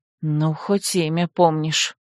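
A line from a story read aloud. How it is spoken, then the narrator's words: Quiet muffled mumble. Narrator (Russian): тихо пробормотала женщина, приложив ладонь к губам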